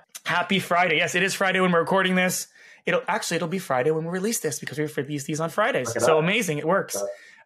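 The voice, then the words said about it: Raspy, hoarse voice. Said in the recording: “raspy voice. Last episode had the same issue, laryngitis, getting better”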